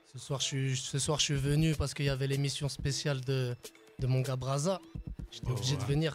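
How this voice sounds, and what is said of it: Hoarse, cracked voice. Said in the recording (French): “j'ai un peu la voix cassée, je suis en train de tousser ... je suis un petit peu malade ... On a presque la même voix ce soir.”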